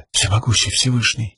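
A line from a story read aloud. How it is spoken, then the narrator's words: Whispered. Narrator (Russian): прошептала Шалан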